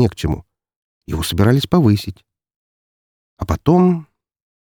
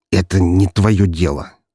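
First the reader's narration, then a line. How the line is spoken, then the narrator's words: Forced out reluctantly. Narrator (Russian): наконец выдавил из себя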